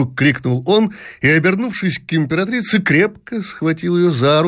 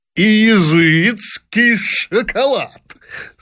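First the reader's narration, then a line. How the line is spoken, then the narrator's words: Bursting with laughter. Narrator (Russian): с новым взрывом хохота повторил император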